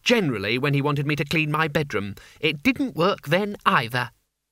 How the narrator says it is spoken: she said calmly

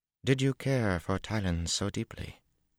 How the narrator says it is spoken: She said in a cautious voice

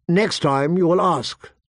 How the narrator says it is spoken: she said, her voice sharp

